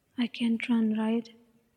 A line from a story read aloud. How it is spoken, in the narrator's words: whispers, voice still full of terror